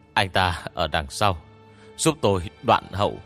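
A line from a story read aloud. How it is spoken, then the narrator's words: Panting, breathless. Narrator (Vietnamese): Hoàng Nhiên thở hổn hển nói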